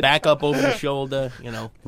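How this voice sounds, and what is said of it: Put-on New York accent. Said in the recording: “Why is he doing a New York accent? ... That was his character. ... He was that New Yorker.”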